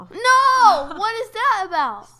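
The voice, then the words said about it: Yelling loudly. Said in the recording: “Stop yelling.”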